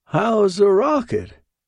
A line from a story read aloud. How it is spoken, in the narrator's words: piped mother-in-law